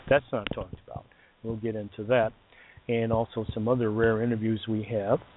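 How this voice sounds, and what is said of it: Hoarse, failing voice. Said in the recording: “I'm losing my voice again... Still haven't gotten over this, whatever this flu is.”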